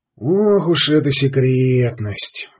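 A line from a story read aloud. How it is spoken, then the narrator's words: Sighing. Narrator (Russian): вздохнул Сварог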